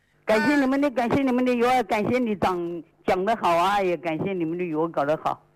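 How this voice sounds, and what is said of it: Hubei Qianjiang regional accent. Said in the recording (Chinese): “我听你口音，你是哪里人呢？ ... 潜江的。 ... 哦，湖北潜江市的。”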